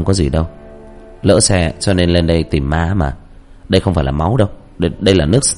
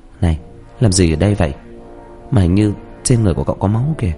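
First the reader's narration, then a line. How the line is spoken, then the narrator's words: Unafraid question. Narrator (Vietnamese): nó không sợ hãi, mà hỏi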